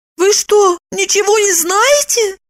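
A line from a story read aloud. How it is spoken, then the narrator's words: Exclaiming. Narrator (Russian): воскликнула Евдокия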